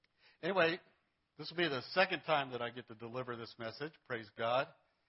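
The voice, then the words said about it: Strained, worn-out voice. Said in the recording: “My voice is a little bit shot here because praise and worship is so good this morning.”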